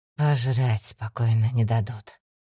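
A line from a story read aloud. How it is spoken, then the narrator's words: Man sighing. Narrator (Russian): вздохнул мужчина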